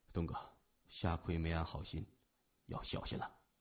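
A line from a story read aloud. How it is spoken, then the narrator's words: Soft warning. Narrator (Chinese): 三眼儿趁机轻声说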